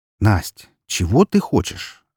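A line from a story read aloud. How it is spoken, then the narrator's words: Forced calm question. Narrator (Russian): Стараясь говорить как можно более спокойным тоном, спросила я ее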